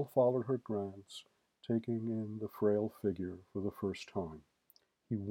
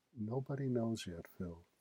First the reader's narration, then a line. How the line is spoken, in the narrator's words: interrupted, gently